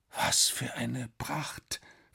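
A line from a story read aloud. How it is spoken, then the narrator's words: Whispering. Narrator (German): flüsterte Alex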